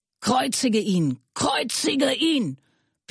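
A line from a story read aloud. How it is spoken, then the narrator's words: Crowd screaming. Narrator (German): schrien sie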